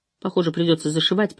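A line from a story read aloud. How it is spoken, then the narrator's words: Worried mutter. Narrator (Russian): пробормотала озабоченно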